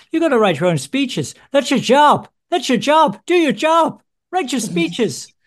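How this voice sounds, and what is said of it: Put-on Irish accent. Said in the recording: “I feel like I sound a bit like Roy Keane, the Irish football player ... I'm really good at that Irish accent. I've never tried it before. Well, others may disagree.”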